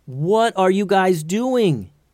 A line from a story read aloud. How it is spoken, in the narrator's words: yelled Tatiana